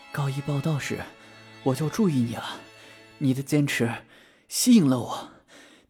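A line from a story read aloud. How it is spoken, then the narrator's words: Breathless. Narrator (Chinese): 喘着气对轩轩说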